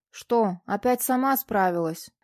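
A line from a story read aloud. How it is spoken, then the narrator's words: Displeased tone. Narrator (Russian): Все тем же недовольным тоном констатировал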